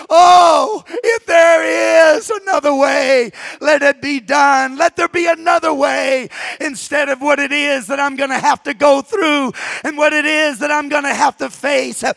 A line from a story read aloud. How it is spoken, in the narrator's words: he cries out to the Father